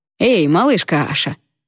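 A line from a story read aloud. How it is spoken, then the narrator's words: Mocking call. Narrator (Russian): насмешливо окликнул меня Шин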